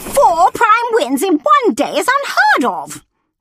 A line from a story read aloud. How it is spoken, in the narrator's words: the woman exclaimed